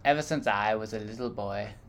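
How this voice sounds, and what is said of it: Imitates another person's voice. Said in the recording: “a Morgan Freeman impression ... That sounds just like him ... That sounds just like the commercial. Yeah, that's really good.”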